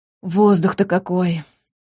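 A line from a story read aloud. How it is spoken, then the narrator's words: Deep sigh. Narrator (Russian): Латка глубоко вздохнула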